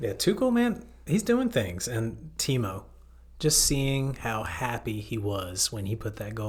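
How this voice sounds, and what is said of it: Usual voice. Nothing is said of it.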